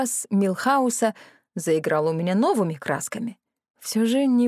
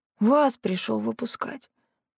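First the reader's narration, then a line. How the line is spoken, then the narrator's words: Gruff grunt. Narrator (Russian): буркнул Франган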